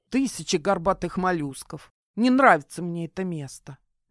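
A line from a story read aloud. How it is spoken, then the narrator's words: Muttering. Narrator (Russian): буркнула Кайра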